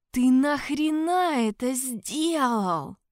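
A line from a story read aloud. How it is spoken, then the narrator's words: Hoarse wheeze. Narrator (Russian): прохрипел я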